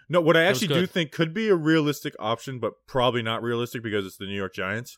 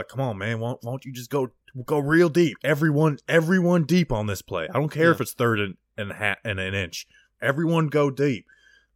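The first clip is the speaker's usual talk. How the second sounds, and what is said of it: Imitates another person's voice. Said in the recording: “my Freddie Kitchens impression”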